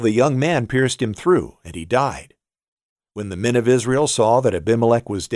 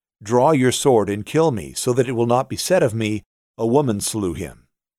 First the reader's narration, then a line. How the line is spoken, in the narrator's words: he called quickly, and said